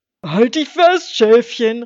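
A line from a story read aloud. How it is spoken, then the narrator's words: Calling out. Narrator (German): rief Wolf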